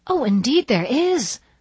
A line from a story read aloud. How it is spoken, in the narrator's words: cried Anne, who couldn't endure such heresy in silence